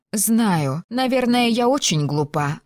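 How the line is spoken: Sighing. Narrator (Russian): вздохнула Филиппа

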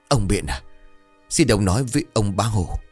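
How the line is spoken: Trembling plea. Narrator (Vietnamese): hai chân run rẩy

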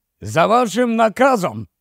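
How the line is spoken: Loud shout into phone. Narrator (Ukrainian): голосно крикнув слухавку

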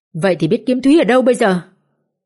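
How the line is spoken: Irritable snapping. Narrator (Vietnamese): Tấn gắt

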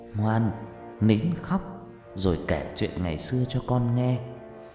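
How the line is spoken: Soft murmuring. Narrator (Vietnamese): Bà Phương thủ thỉ

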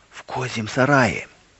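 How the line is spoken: Clear whisper. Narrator (Russian): услышал ясный шепот

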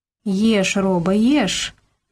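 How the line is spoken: Soft smiling. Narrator (Russian): мягко улыбнулась Милка

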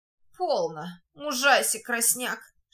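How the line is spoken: Broken, pitying whisper. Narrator (Russian): шепчет надорванным, жалостливым голосом луж

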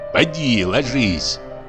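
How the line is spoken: Grumbling. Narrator (Russian): проворчал дичок

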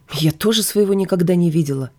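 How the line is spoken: Snapped. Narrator (Russian): огрызнулась я

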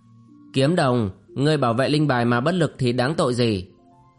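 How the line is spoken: Cold question. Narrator (Vietnamese): Thiếu niên áo lam lạnh lùng hỏi

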